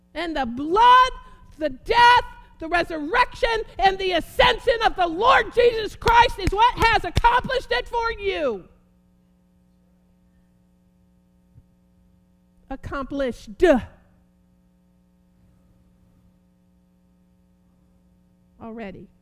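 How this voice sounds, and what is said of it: Yelling, excited preaching. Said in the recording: “I'm really sorry for yelling. I get so excited.”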